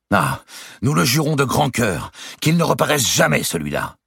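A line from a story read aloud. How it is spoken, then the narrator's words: Eldest son's exclamation. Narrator (French): s'écria l'aîné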